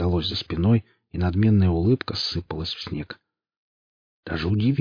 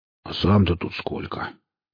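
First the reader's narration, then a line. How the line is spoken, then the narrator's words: Displeased grumbling. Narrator (Russian): проворчал Велес весьма недовольным голосом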